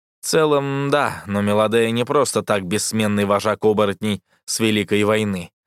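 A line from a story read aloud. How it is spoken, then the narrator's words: Plain. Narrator (Russian): ответил ей Азель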